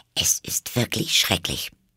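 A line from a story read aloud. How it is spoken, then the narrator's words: Murmuring to herself. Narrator (German): murmelte vor sich hin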